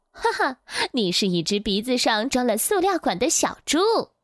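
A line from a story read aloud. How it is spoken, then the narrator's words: Laughing loudly. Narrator (Chinese): 袋鼠大笑着说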